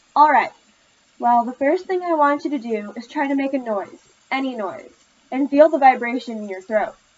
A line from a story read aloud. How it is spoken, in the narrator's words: Miss Carey sighed